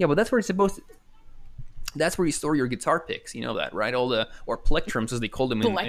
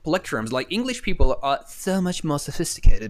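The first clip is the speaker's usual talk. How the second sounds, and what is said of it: Bad put-on English accent. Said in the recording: “this is my horrible English accent.”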